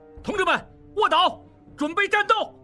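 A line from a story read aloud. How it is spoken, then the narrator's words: Startled shout. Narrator (Chinese): 应济吃了一惊，大喊道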